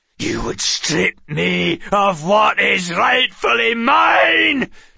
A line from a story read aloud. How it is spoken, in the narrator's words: Tregane bellowed